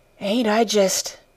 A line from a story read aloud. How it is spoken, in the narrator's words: she said in a hoarse voice